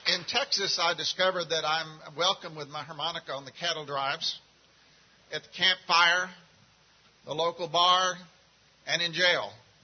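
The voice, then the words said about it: Central Texas accent. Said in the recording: “you can tell by my accent, I'm not from the local area. I'm from Central Texas.”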